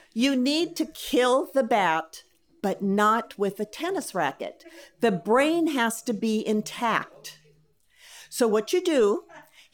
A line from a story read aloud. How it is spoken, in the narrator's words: he said